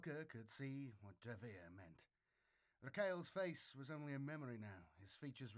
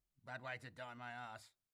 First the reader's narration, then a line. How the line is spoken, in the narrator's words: Davir spat, alive with sudden anger